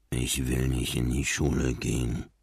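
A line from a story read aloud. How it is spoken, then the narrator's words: Mumbling. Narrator (German): nuschelte Marlin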